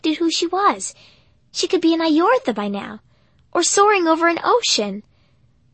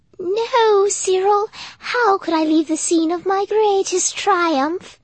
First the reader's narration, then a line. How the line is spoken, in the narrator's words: Her voice was musical